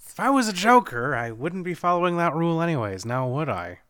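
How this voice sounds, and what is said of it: Joker character voice. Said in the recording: “that great Joker impression”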